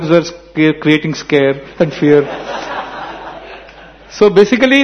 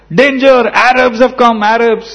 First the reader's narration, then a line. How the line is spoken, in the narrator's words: scream started screaming said